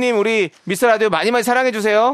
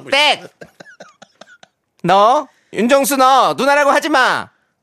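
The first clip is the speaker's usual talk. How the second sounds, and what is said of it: Imitates another person's voice. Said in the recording (Korean): “성대모사가 있다고 하는데요. 다음 성대모사를 듣고 어떤 분의 성대모사인지”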